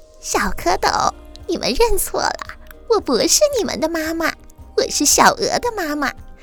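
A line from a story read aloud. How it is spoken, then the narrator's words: Laughing. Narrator (Chinese): 大白鹅笑着说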